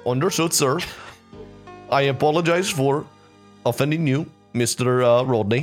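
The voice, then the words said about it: Put-on accent. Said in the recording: “I'm focusing so hard to keep that accent.”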